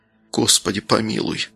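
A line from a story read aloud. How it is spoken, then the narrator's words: Priest's sighing whisper. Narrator (Russian): со вздохом прошептал священник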